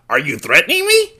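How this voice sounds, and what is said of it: High-pitched cartoon character voice. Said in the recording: “I can't say it without sounding like Cornholio ... Even then, my voice is going up.”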